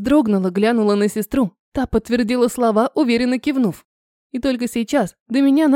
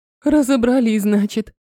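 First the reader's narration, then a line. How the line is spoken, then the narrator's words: Relieved sigh. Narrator (Russian): облегченно вздохнула Альбина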